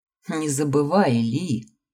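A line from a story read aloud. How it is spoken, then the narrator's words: Laughing. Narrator (Russian): рассмеялся Дерек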